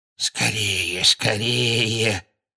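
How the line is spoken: Hoarse muttering behind door. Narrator (Russian): сипло бормотал кто-то прямо за дверью кабинета

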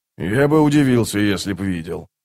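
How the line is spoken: Grumbling. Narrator (Russian): проворчал Скворец

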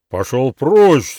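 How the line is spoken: Menacing shout. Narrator (Russian): грозно крикнул Лонг

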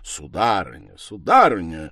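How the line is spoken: Imposing exclamation. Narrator (Russian): восклицал он внушительным голосом

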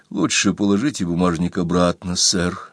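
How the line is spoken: Whispered. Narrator (Russian): шепотом сказал Томас

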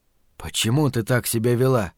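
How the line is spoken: Quiet question. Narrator (Russian): спросил он женщину тихо

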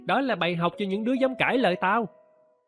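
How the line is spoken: Loud laughing. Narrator (Vietnamese): Hắn cười lớn

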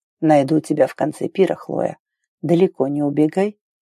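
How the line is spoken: Whisper in ear. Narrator (Russian): зашептал ей на ухо

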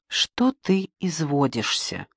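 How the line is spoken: Gentle reproach. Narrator (Russian): мягко упрекала его Маруся

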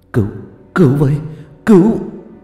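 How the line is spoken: Gasping stammer. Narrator (Vietnamese): Tư ngớp ngớp không nói được lên lời, mồm lắp bắp

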